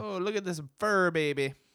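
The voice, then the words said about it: Put-on Italian accent, sounds Irish-Jamaican. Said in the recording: “that accent. That was like Irish. ... That was Italian, obviously. ... Irish ... Jamaican. ... Irish too. ... Jamaican Irish.”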